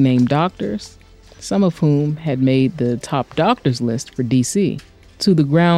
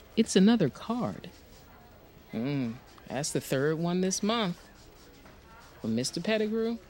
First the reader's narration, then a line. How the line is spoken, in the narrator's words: Shawnice asked